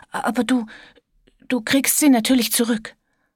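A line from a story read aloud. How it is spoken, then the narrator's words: Stammering. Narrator (German): stammelte er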